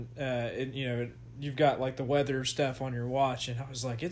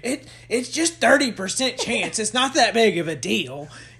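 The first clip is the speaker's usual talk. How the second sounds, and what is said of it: Imitates another person's voice. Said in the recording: “I sound just like that. That's the best impression ever.”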